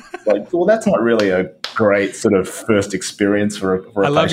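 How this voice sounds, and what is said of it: Usual voice. Nothing is said of it.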